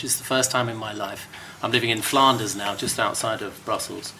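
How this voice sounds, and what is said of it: Distinctive hard-to-place London-tinged accent. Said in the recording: “quite a distinctive voice. I could never quite place the accent. It seemed to have a bit of London, his home city, but also a smattering of other influences”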